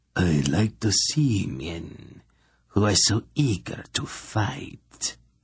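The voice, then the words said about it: Purring voice with peculiar accent. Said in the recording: “the Grolem purred, with a peculiar accent.”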